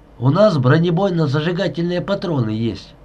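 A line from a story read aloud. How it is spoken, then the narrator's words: Flat, glumly offended tone. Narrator (Russian): все тем же ровным, уныло обиженным тоном сказал Будько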